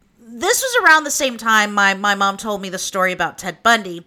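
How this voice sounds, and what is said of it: Oklahoma accent. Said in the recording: “I'll keep my Okie accent”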